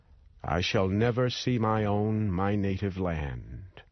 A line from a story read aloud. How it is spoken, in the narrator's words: Just before he died, he cried out